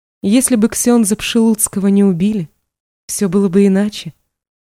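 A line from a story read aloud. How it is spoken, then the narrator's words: Calm objection. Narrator (Russian): спокойно возразила она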